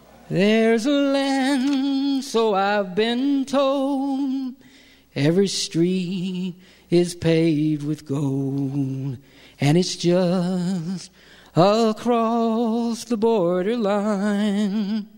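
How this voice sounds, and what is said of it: Hoarse singing voice. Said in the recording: “my voice is hoarse”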